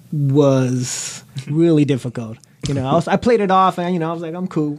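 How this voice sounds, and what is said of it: Hoarse, strained, nearly lost voice. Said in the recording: “my voice is gone”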